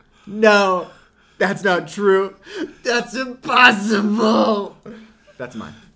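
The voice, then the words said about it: Luke Skywalker impression, anguished denial. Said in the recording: “Can we all do our best Luke finding out Vader's your father impression?”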